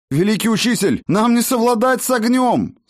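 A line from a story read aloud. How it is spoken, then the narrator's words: Desperate shout. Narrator (Russian): с отчаянием крикнул Тысячник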